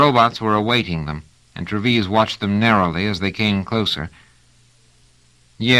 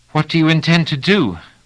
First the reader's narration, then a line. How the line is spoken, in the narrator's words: Pellerat said rather breathlessly